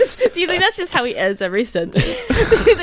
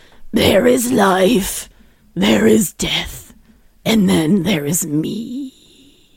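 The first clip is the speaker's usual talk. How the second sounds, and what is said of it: Gravelly imitated voice. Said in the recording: “do his gravelly voice.”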